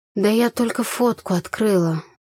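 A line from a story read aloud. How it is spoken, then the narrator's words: Dejected voice. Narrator (Russian): упавшим голосом сказала я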